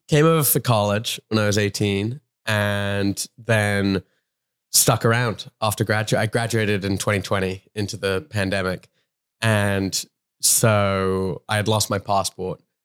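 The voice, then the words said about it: London accent with Australian tinge. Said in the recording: “I'm from London but okay. I've lived in America long enough that it's strangely Australian ... it's got a tinge, got a tinge of the Aussie to it.”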